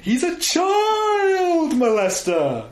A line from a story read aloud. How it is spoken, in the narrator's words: screaming